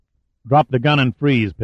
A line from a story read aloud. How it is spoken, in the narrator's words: Pitt said sharply